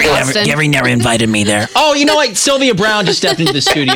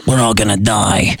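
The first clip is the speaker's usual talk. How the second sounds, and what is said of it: Imitates another person's voice. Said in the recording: “Did I ever do my Sylvia Brown impression”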